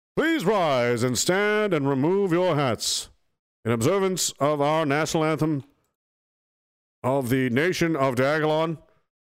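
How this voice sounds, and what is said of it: Hockey game announcer voice. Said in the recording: “How do they do it in hockey games normally? ... I'm doing the wrong voice.”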